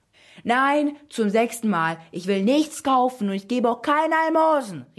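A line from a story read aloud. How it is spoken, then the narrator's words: Annoyed shout. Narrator (German): rief sie genervt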